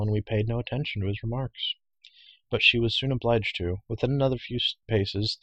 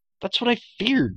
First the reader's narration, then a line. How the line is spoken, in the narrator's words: cried Taryn, dismayed